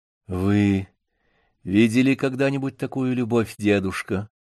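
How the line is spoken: Quiet question. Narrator (Russian): тихо спросила Вера

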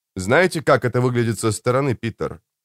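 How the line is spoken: Plain question. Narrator (Russian): спросил Хокрым

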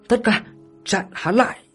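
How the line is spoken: Cold, sharp shout. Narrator (Vietnamese): Đường Tâm Liên ánh mắt lập tức lạnh như băng, hét lên một tiếng

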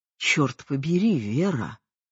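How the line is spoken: Muttering. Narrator (Russian): пробормотал он

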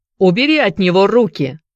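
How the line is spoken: Shout. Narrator (Russian): крикнул он Филиппу

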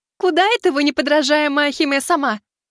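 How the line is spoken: Gloating triumphant shout. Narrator (Russian): Со злорадным торжеством выкрикнула серая

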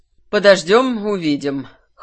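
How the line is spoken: Snort. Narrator (Russian): хмыкнул Кирсан

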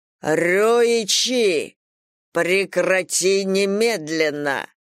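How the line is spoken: Ruler's booming command. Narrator (Russian): прогремел с трона государь

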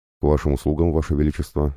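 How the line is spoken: Plain. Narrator (Russian): ответил я

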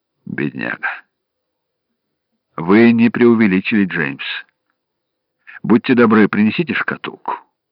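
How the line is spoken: Quiet speech. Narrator (Russian): Зигфрид сказал негромко

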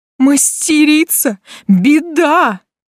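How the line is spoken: Exclamation. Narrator (Russian): воскликнул он

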